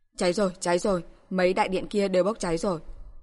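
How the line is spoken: Distant screaming. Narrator (Vietnamese): nghe tiếng người gào rú ở phía xa

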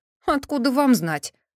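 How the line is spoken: Snort. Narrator (Russian): хмыкнул кто-то

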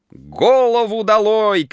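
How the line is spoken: Girls shouting. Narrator (Russian): кричали девушки

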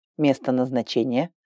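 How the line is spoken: Male computer voice. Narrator (Russian): спросил компьютер мужским голосом

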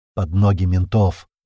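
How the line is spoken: Man's wry snort. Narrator (Russian): хмыкнул мужик

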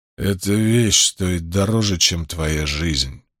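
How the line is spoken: Growl. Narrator (Russian): прорычал Карбон

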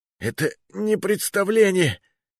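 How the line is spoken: Strained, barely audible. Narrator (Russian): еле выдавил я

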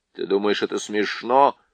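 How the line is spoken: Grumbled. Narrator (Russian): проворчал Юстас

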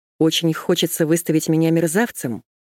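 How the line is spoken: Calm speech. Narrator (Russian): Он тоже заговорил спокойно

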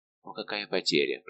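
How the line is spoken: Whispered. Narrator (Russian): прошептал доктор

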